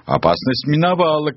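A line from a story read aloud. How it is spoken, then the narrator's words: Relieved shout. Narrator (Russian): кричала она, видя, что орлы тащат в когтях крупную добычу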